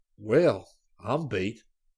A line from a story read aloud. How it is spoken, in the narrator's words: Scotty exclaimed